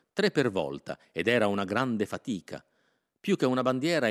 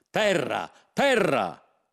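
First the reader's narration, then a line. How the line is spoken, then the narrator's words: Excited shouting. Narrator (Italian): si mise a gridare come se non l'avesse mai vista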